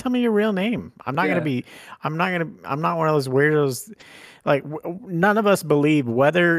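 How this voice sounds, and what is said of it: Usual voice. Nothing is said of it.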